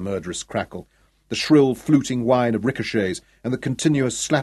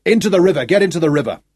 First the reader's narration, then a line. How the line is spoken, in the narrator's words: shouting at the men